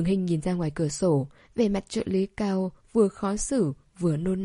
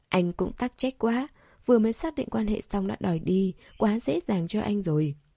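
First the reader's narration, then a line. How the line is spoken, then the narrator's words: Soft scornful huff. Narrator (Vietnamese): Cô khẽ hừ nói thêm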